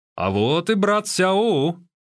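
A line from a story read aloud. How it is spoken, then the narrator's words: Exclamation. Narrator (Russian): воскликнул Юань Сяоэр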